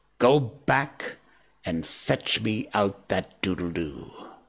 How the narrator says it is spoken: he said in his most steely voice

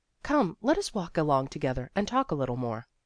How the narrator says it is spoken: said very kindly

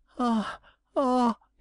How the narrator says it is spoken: he cried

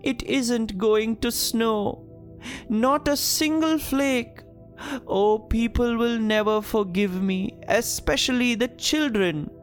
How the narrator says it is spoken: The weatherman sobbed

